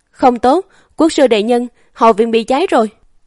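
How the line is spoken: Distant terrified shout. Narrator (Vietnamese): bên ngoài đột nhiên truyền đến một tiếng hét kinh hãi

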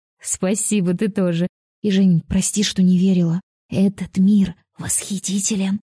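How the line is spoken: Whispered. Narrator (Russian): прошептала

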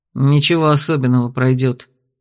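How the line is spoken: Grumble. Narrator (Russian): буркнул я

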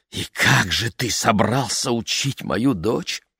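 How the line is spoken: Trembling question. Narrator (Russian): дрожащим голосом спросила Тельма

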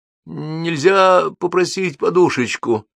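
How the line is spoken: Trembling voice. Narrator (Russian): дрожащим голосом говорю я

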